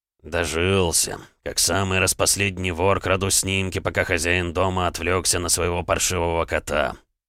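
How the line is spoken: Muttering. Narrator (Russian): бормотал граф

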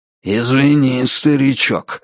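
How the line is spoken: Flat, indifferent voice. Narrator (Russian): сказал Хью бесстрастным голосом человека, у которого есть проблемы побольше этой

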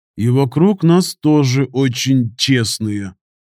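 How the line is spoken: Grumbling mutter. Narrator (Russian): буркнул Штырь

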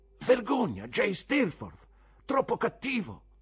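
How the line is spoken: Shouted. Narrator (Italian): Qualcuno gridò

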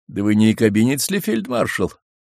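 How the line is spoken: Mocking question. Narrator (Russian): насмешливо спросил Павел

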